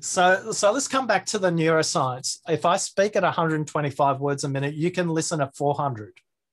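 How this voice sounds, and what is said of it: Australian accent. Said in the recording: “maybe I have a disjointed way of speaking, maybe because I'm Australian”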